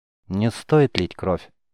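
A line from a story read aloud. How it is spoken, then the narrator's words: Soft but firm, commanding. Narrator (Russian): вроде бы мягко сказал он, но в его голосе прозвучала такая твердость и властность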